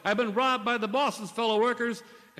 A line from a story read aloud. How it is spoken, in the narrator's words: he yelled